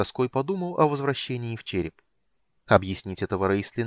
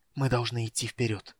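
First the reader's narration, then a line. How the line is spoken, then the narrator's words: Breathless whisper. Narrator (Russian): задыхаясь, прошептал он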